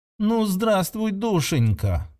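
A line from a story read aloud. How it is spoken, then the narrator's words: Melodious sing-song, delighted. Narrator (Russian): пропела Сирион своим мелодичным голосом, как будто нашла пропавшую игрушку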